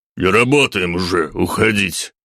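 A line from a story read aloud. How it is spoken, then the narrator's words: Rough male reply. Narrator (Russian): грубо ответил бородатый мужчина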